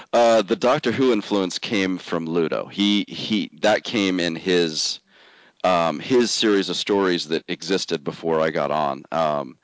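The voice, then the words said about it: Congested voice with a cold. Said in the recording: “you can tell I've got a cold.”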